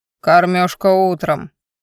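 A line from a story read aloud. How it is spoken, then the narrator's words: Displeased deep bass. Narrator (Russian): недовольно пробасил охранник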